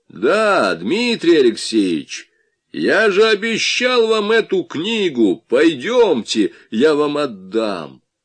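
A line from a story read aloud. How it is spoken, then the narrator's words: Sudden loud speech. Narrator (Russian): вдруг громко произнес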